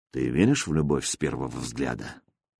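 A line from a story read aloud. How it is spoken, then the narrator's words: Quiet question. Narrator (Russian): Никита тихо спросил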